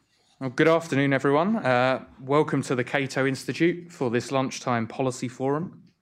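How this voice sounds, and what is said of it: British accent. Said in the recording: “As you can probably tell from my accent, I'm not originally from around these parts... I'm from the other side of the pond.”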